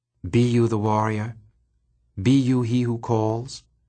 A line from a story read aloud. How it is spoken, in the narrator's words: asked the bat in a soft purr